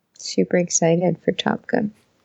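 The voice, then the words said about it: Flat sarcastic deadpan delivery. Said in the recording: “you can just hear the ecstasy in my voice ... This is your excited voice?”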